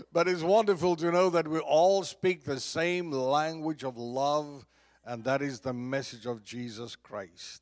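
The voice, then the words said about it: Mixed Southern US accent. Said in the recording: “I have pretty much of a messed up accent ... Lake Charles, Louisiana. That will affect your accent ... Georgia ... give you another little swing in your accent ... now we're in Texas”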